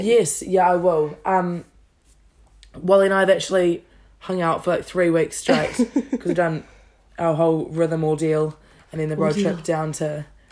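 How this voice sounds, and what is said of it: Raspy, strained voice. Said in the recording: “Excuse my voice if it sounds a bit raspy. ... going a bit hard on the vocals last night”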